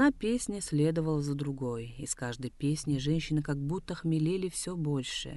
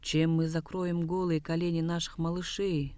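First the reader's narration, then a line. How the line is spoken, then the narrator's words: Sad complaint. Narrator (Russian): грустно жаловались они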